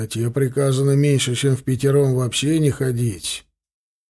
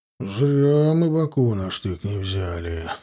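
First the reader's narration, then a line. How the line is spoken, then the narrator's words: Grumbling. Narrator (Russian): ворчал едущий рядом с Сошниковым Федот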